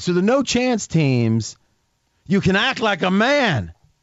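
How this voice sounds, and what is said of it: Imitates another person's voice. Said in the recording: “that was a good imitation right there ... It was right on. I somehow got the register of Brando. ... I do have cotton in my cheeks right now”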